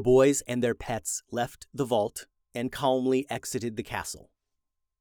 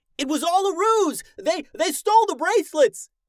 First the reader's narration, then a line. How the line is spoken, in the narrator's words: The guards yelling as they pursued the brothers